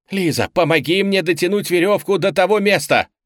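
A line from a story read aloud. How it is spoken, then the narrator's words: Shout. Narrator (Russian): крикнул Шанталь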